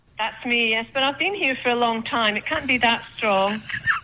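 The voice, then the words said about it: Slight Scottish accent. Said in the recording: “I detect a slight Scottish brogue there”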